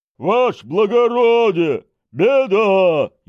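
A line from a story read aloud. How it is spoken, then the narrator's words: Hurried frightened yell from afar. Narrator (Russian): еще издали вопит в попыхах и в испуге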